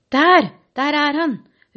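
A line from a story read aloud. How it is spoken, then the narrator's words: Shouted. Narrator (Norwegian): ropte en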